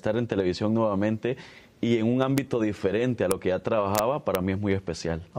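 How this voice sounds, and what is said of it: Announcer-like broadcaster voice. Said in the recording (Spanish): “si tienes voz de locutor”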